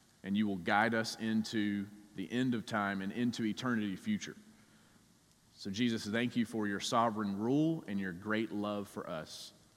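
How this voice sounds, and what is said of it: Southern US accent, South Georgia drawl. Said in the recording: “no matter how hard I try, I have really tried to shake my southern accent that I have over the years ... I grew up in South Georgia ... every way you say the letter I ... It's just like molasses flowing out of my mouth.”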